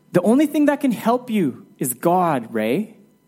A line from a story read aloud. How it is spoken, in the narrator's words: And then the wife pleads with Ray